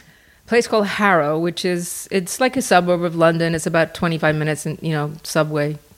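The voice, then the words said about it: Slight faded English accent. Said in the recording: “you do have a bit of an accent, although most of it's gone now ... You were born and raised in England”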